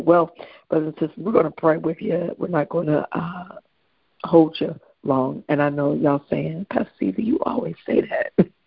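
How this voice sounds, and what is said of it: Tired, weak voice. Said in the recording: “excuse my voice. My voice is just a little tired, just a little weak... my voice is just a little tired”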